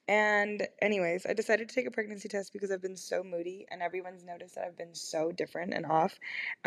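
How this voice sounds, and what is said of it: Slightly lost, hoarse voice. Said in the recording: “I lost my voice a little bit again”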